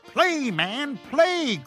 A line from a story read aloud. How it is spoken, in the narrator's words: cried the widow